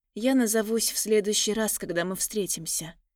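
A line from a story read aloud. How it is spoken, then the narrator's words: Soft reply, stranger. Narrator (Russian): мягко отозвался незнакомец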